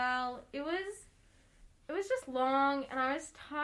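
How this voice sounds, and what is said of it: Usual voice. Nothing is said of it.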